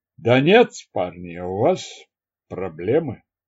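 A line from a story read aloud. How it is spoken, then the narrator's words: Thoughtful. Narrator (Russian): задумчиво сказал Перри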